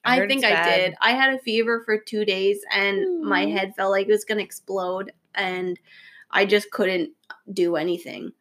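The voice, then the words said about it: Sick-sounding voice. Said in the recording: “I'm sure everyone can hear in my voice that I'm getting over what I'm pretty sure was probably the fucking flu”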